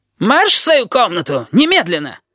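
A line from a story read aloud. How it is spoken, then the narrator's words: Yelled close to ear. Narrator (Russian): Завопил над ухом Щепка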